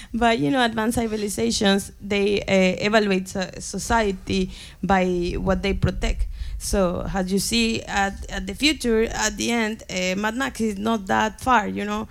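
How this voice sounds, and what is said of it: Non-native English accent. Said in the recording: “Sorry for my pronunciation, my English. ... We love your accent.”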